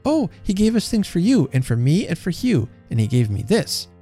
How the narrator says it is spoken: cried Alice

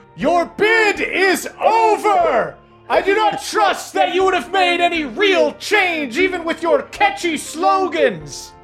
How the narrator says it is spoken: you hear this dragon shouting

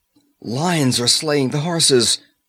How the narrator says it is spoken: cried Valeria

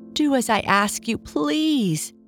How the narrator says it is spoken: begged the donkey-eared man

